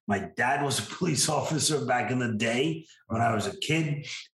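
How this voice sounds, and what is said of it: New York accent. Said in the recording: “in New York, where I was born and raised, which I know you couldn't tell from my voice”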